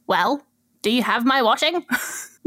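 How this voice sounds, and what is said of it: Weak attempt at Scottish accent. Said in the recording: “The voice got a little bit, got a bit. ... I'm not very good at Scottish accents.”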